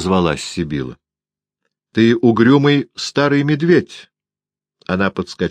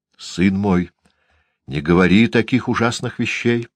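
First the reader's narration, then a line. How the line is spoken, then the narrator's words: Sighing mutter. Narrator (Russian): пробормотала миссис Вейн со вздохом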